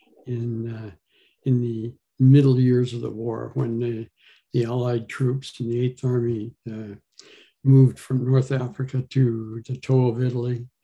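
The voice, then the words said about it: Non-British English accent. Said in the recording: “by your accent, you're not British”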